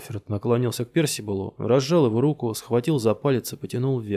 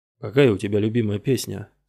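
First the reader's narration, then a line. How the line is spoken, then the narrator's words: Calm question. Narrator (Russian): спокойно спросил мистер Джеральд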